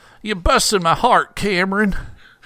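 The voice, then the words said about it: Will Ferrell's George W. Bush impression. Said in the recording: “For some reason, ... became Will Ferrell impersonating George W. Bush there. ... Me impersonating.”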